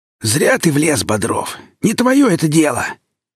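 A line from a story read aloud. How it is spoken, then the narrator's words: Hoarse. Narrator (Russian): хрипло обернулся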